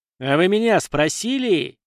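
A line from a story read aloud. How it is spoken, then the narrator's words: Furious growl. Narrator (Russian): окончательно разозлившись из-за такого захода, зарычал Беломир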